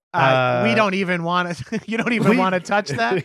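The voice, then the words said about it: Slick radio announcer voice. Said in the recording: “that accent ... Why was that accent? ... It was like a slick, like an announcer. ... it's like WNBC”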